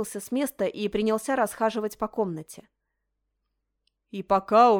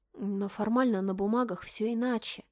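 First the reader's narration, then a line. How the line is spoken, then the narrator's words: Soft objection. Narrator (Russian): мягко возразила Мишель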